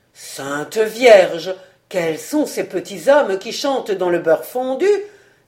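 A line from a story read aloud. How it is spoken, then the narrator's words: Astonished exclamation. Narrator (French): s'écria le léonard stupéfait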